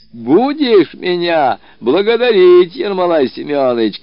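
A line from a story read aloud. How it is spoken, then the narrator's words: Shouting. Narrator (Russian): кричал он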